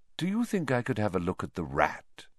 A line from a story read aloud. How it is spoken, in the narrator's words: he said evenly